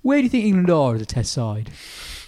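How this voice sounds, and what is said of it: Impression of Ian Ward. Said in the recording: “Ian Ward's favourite question ... That's quite a good impression.”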